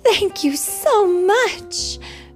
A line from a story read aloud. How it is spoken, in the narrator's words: cried Cinderella